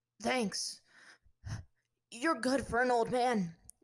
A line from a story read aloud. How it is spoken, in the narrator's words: Zuko managed to say between breaths